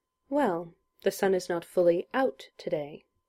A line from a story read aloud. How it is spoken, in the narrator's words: replied Julian evenly